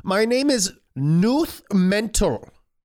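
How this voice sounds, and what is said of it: Put-on German accent. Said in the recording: “I should have done a German one”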